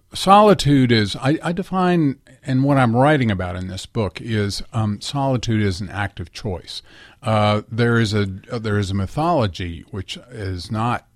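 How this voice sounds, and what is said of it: Slightly stuffy, congested voice. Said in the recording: “I have a little bit of a cold”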